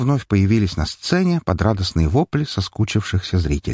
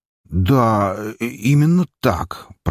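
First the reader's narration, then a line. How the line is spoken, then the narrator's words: Unsure drawl. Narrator (Russian): протянул как-то немного неуверенно продюсер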